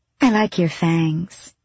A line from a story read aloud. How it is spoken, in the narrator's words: she said sweetly